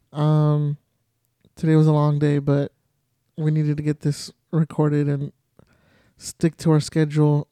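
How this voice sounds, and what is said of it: Tired, drained voice. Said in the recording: “I am freaking tired ... You can probably hear it in my voice. I'm like drained.”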